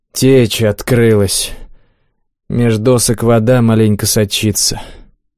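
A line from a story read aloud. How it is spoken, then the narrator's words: Gloomy statement. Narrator (Russian): коротышка мрачно заявил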